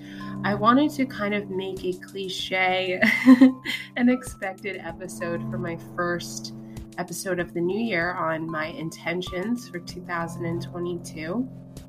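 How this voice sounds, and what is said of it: Sick-sounding voice. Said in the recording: “I don't know if you can hear it in my voice, but I am sick.”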